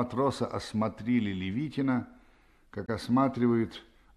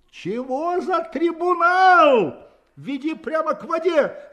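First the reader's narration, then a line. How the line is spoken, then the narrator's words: Soldier shouting. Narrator (Russian): закричал солдат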